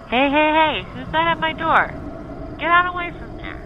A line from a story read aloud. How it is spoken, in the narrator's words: Smitty called out